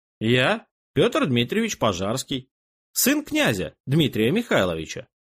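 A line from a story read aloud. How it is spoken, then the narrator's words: Calm. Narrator (Russian): спокойно … бывший генерал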